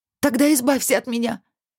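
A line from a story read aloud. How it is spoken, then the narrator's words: Shout. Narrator (Russian): крикнула Алиса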